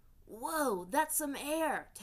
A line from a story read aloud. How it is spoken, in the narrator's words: Teo exclaimed